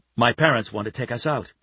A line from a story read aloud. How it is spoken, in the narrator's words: Kevin told him quickly